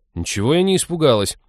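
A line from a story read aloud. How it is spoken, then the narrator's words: Indignant. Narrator (Russian): возмутилась Молли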